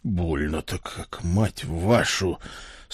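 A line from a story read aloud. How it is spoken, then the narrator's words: Pained groan. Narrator (Russian): с трудом простонал я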